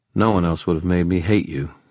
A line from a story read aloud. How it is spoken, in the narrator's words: he said flatly